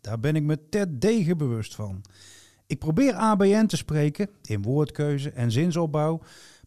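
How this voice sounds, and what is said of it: Brabant Dutch accent. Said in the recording (Dutch): “Ik heb een Brabants accent.”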